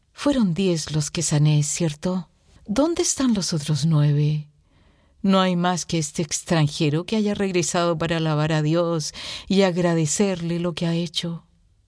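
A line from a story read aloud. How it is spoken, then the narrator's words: Sad voice. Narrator (Spanish): Jesús con voz triste y replica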